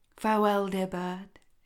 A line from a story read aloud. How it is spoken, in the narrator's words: she said